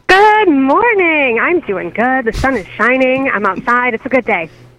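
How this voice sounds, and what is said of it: Excited, cheerful voice. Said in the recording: “You can tell it in her voice. She's real excited about today.”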